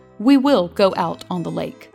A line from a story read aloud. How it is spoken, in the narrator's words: said the master firmly